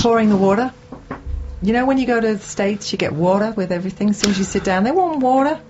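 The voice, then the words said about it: Put-on Belfast Northern Irish accent. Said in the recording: “The accent that you're doing, yeah. Northern Ireland, isn't it? ... Belfast accent.”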